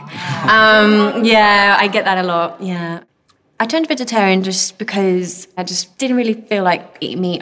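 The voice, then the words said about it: British accent, slight northern twang. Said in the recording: “I always grew up with a British accent ... hence the sometimes northern twang”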